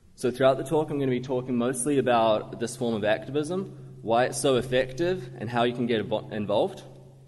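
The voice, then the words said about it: New Zealand accent. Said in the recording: “my accent ... I'm not actually from Australia. I grew up in a rural dairy farming city in New Zealand.”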